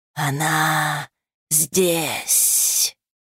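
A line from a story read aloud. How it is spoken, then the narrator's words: Growling wolf. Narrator (Russian): зарычал волк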